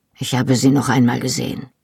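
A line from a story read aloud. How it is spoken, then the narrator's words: Quiet. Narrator (German): sagte leise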